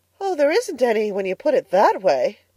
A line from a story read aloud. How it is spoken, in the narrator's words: gasped Anne, rather as if somebody had thrown cold water over her